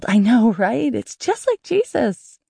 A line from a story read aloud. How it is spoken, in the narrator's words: The other girl squealed